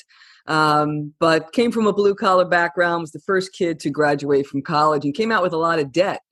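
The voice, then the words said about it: New York City accent. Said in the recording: “I was born and raised in the New York City area. You could probably hear that by my accent.”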